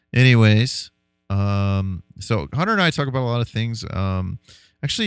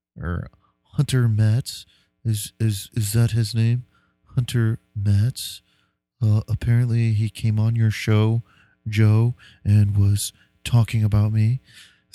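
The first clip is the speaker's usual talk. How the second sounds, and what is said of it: Derek Zoolander / Sam Harris impression. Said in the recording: “my Derek Zoolander / Sam Harris impersonation”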